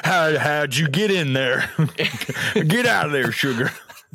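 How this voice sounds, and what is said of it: Put-on deep Southern accent. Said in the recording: “we always turn southern. I love a deep southern accent”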